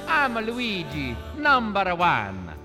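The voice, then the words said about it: Luigi's exaggerated Italian-American accent. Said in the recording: “his equally authentically accented brother Luigi”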